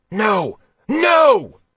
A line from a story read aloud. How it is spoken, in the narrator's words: Roth yelled